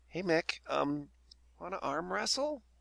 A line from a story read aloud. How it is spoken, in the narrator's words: approaches nervously and says